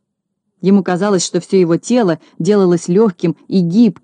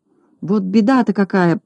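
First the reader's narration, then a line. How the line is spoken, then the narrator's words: Muttering to himself. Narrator (Russian): бормотал про себя Знайка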